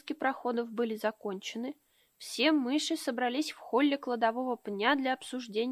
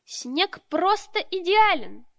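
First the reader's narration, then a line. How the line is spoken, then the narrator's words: Male shouting. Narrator (Russian): прокричал он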